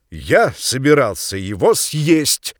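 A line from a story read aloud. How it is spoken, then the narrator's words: Loud, deliberate. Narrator (Russian): сказал он громко и раздельно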